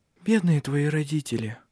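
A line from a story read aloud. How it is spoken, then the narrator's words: Sighing. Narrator (Russian): вздохнула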